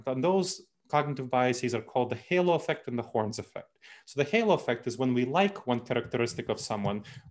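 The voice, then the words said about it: Speaks with a noticeable accent. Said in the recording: “obviously I have an accent”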